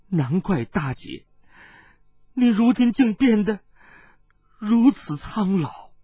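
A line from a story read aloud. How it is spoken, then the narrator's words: Choked sobbing, trembling voice. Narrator (Chinese): 殷频更是泣不成声，颤声说道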